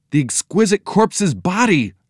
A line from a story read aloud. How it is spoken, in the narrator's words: Joe exclaimed